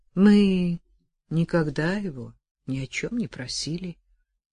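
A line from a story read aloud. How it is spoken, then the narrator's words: Soft, gentle. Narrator (Russian): мягко проговорил дед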